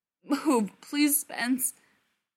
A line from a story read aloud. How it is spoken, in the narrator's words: Brendan pleaded, trembling